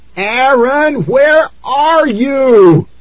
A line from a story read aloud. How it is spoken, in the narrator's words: I screamed over the steady drumming on the walls